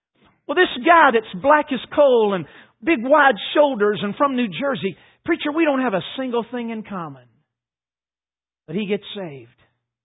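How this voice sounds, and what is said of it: North Carolina accent. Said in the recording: “Of course, you're listening to me. It's obvious, I guess. I'm from North Carolina. ... I'm sure my speech betrays me.”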